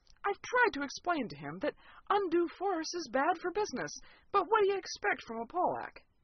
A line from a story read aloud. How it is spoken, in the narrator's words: I sighed